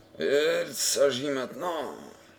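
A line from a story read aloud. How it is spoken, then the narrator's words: Grumbled. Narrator (French): grommela Rio Blas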